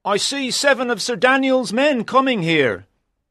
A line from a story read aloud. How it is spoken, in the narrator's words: a man up a tall tree cried